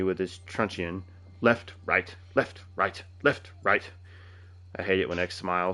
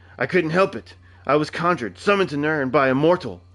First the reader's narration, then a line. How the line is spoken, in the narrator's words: I cried